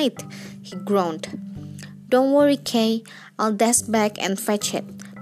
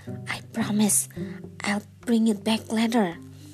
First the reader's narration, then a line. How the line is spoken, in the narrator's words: Arthur muttered out loud to no one in particular